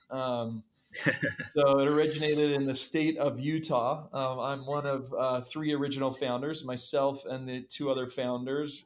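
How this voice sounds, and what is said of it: American English accent. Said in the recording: “it originated in the US. You probably guessed that by my accent.”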